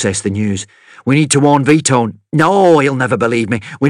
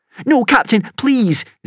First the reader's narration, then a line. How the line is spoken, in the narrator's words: Zelia begged